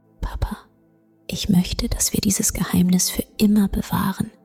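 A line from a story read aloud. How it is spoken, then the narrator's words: Whisper. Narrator (German): flüsterte sie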